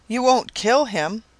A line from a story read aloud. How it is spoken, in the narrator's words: exclaimed in frantic tones